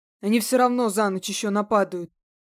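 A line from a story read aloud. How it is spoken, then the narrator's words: Grumbled. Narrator (Russian): пробурчал Дива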